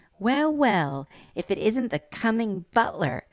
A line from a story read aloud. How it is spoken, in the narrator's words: snapped Guard Finch